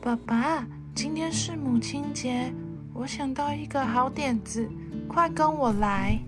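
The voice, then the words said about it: Whispered, quiet speech. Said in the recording (Chinese): “小声的在爸爸耳边跟他说”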